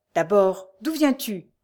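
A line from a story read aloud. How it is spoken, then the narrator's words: Brisk, quick. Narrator (French): reprit vivement Jean-Claude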